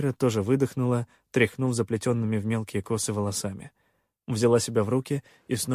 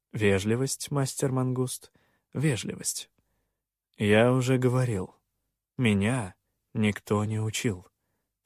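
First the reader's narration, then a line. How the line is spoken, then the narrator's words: Calm reply. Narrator (Russian): спокойно отозвался я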